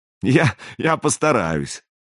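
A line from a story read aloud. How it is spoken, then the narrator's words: Short laugh. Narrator (Russian): хохотнул Бьярни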